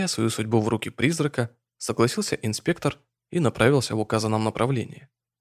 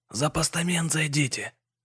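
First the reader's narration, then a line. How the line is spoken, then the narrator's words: Barely audible whisper. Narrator (Russian): еле слышно шепнул Антон товарищу в ухо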